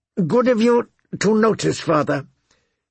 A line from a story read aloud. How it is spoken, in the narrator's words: he said through clenched teeth